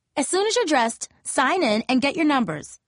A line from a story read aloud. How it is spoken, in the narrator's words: yelled an older dark-skinned girl